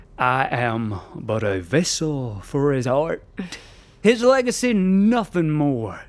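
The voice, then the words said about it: Put-on Southern American accent. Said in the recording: “more Irish ... I can only do Southern American ... The accent is immaterial.”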